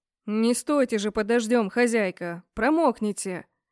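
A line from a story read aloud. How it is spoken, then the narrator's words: Booming declaration, coachman. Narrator (Russian): Зычным голосом заявил мой кучер и охранник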